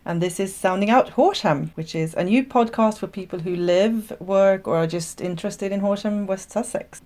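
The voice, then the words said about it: Swedish accent. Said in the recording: “my funny accent is from Sweden.”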